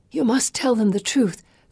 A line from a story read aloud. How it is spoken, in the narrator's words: Felicity hisses